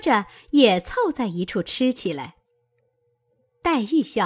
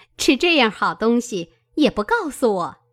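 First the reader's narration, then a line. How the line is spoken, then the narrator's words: Laughing. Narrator (Chinese): 凤姐儿笑道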